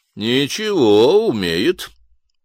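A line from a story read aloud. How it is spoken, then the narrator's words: Approving snort. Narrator (Russian): одобрительно хмыкнул Патрик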